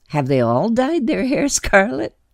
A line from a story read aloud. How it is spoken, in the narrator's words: She laughed